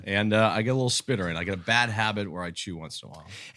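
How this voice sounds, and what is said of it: Put-on cool-guy voice. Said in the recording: “Are you putting on this voice? ... Because you don't talk like this in real life. ... I was trying to be cool.”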